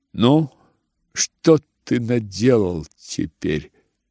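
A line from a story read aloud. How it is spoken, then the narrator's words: Plain. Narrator (Russian): сказала Варя брату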